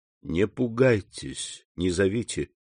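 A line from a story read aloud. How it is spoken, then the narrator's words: Plain. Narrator (Russian): сказал граф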